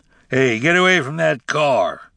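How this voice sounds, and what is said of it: Deep shouting character voice. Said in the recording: “deep voice”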